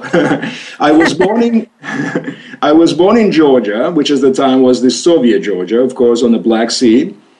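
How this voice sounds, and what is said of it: Mixed foreign accent. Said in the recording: “You have a wonderful accent ... the accent that you hear is really a mix of them all ... this is not any particular accent of any languages that I speak. By now, they've all become meshed up.”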